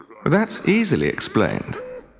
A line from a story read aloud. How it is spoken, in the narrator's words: Loki replied smoothly